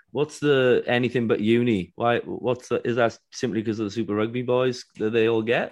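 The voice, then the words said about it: Non-Australian accent. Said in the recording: “I never grew up in Australia, as you can tell by the accent”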